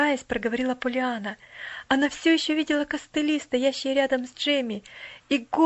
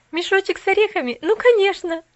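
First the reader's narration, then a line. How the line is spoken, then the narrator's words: Laughing. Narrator (Russian): засмеялась Пуляна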